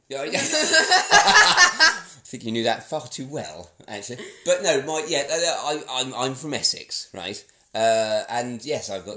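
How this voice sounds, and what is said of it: Posh-sounding English voice. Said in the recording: “You sound so posh... you have the posh voice”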